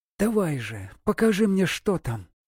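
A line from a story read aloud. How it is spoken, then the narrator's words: Whisper. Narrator (Russian): прошептала она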